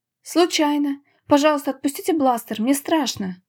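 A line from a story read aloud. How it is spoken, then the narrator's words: Hasty exclamation. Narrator (Russian): поспешно воскликнула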